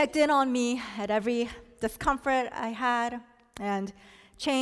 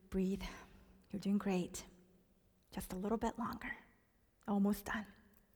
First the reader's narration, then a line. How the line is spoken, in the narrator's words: she whispered to me